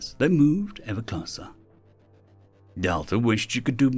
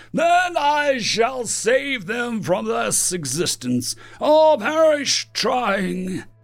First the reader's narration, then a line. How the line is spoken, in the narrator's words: Fran roared